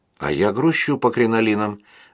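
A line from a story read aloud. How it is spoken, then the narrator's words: Sigh. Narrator (Russian): вздохнул адвокат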